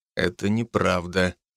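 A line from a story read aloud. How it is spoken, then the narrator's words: Quiet answer. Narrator (Russian): тихо ответил я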